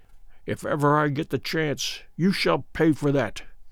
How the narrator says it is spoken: Good mutter beneath his breath

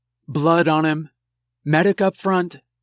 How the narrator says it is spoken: the lead soldier called out in a female voice

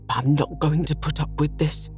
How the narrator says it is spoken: he spluttered

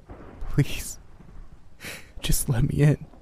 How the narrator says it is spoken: whimpered softly

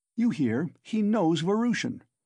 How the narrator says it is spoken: cried Razumihin

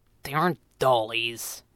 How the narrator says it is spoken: Jeremy muttered

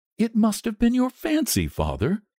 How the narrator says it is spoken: said his wife, regarding him anxiously

